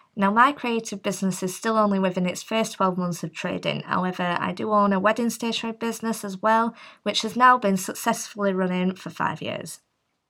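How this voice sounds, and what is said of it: Northwest English accent. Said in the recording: “based in Northwest England, probably quite obvious by the accent.”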